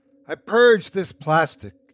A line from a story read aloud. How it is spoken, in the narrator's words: proclaimed, her voice carrying across the field